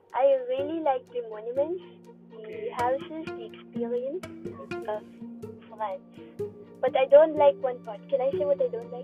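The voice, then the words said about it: Slight French accent. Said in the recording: “your dialect and your ... accent is different. Your accent is a little bit Frenchy”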